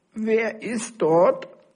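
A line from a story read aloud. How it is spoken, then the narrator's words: Grandmother calling from bed. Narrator (German): rief die Großmutter aus ihrem Bett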